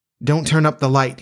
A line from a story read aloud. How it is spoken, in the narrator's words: he cried